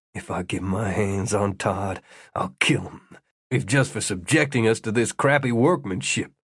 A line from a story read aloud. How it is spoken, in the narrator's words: Tyler muttered